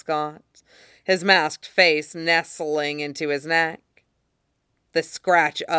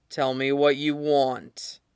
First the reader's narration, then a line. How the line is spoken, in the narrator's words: Ghost's voice rumbled